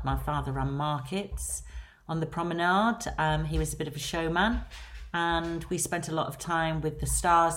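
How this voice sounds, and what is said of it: Lancashire English accent. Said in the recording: “As you can hear from my accent, I am from Lancashire”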